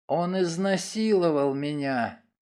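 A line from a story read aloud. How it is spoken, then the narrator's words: Whisper. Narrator (Russian): она прошептала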